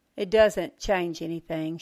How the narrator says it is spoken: said flatly

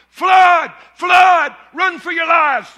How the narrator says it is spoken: he begins to shout

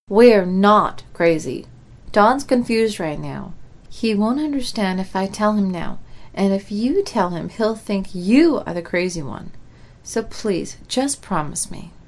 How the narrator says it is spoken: calmly said

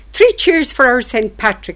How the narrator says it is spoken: I heard a voice exclaim

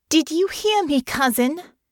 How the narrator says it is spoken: called, raising her voice even louder

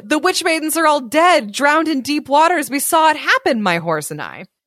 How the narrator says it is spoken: cried John

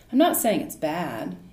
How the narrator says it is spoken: laughed

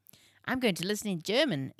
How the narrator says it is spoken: exclaimed Jake with an animated look on his face

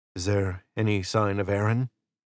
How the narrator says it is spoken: Israel asked

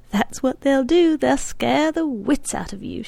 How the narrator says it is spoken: said, and sighed, laughing

